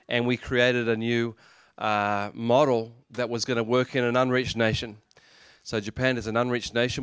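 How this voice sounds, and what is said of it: Australian English accent. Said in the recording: “I'm actually from Australia. Did you notice that? ... our accent”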